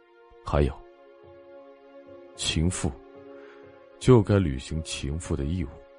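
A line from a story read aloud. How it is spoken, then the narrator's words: Low, close to ear. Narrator (Chinese): 莫千行又凑到宋冉的耳边，压低声音说道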